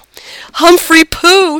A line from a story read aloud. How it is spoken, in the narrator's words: yelled